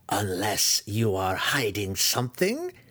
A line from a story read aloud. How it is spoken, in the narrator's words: Matron Malice growled at Dinin, a threat so cold and wicked